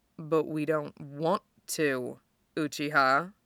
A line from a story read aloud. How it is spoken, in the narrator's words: murmurs right in Madara's ear